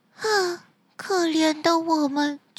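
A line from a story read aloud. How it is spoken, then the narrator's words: Sighing lament. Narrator (Chinese): 鱼儿们唉声叹气地说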